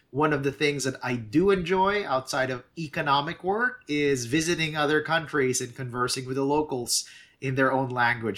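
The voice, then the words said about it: Slight Filipino accent. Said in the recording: “originally hails from the Philippines, which is why I might have a bit of an accent”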